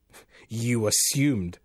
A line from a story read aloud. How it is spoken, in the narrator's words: the voice came back harshly